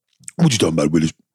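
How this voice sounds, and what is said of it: Imitates another person's voice. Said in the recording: “can you do a Gary Coleman impression?”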